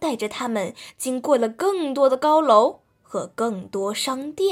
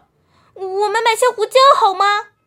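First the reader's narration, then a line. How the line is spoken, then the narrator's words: Quacking call. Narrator (Chinese): 他嘎嘎叫道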